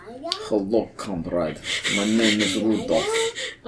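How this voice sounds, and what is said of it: Jokey put-on Russian accent. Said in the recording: “a jokey Russian accent”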